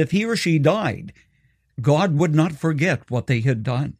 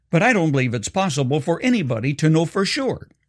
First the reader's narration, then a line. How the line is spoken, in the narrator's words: quickly added